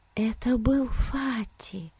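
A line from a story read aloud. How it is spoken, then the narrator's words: Whispered. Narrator (Russian): прошептала она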